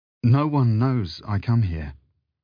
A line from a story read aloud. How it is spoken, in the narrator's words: he faltered